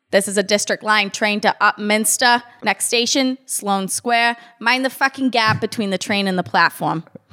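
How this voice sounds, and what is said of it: Put-on Boston accent. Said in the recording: “Now do that same thing, but in a Boston accent.”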